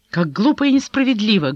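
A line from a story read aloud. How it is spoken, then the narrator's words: Angry exclamation. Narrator (Russian): гневно воскликнула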